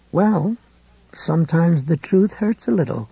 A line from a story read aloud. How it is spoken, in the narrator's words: McGovern said calmly